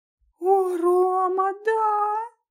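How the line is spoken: Muffled squeak into shoulder. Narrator (Russian): Пискнула она мне в плечо

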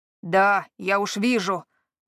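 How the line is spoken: Growling. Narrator (Russian): прорычал тот

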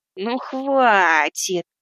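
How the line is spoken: Ringing laugh, doubled voice. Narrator (Russian): она снова звонко рассмеялась своим двоящимся, отдаленно знакомым голосом

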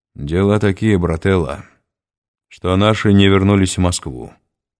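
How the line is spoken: Calm voice. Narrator (Russian): столь же спокойно произнес Жердь

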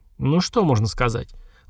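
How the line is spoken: Sigh. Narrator (Russian): Вздохнул наш главный доктор

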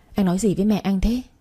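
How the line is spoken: Hesitant soft question. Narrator (Vietnamese): Cô ngần ngại khẽ hỏi

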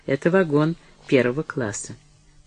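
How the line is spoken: Dry. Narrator (Russian): Деннис сказал сухо

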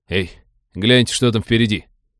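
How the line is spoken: Amazed exclamation. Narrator (Russian): изумленно воскликнул третий член команды

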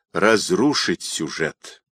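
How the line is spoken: Muttered. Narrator (Russian): пробормотал Родионов

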